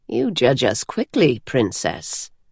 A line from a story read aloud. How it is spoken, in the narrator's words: Rira said from behind, chuckling